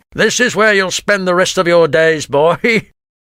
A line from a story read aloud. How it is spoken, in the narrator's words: laughed Grimlard cruelly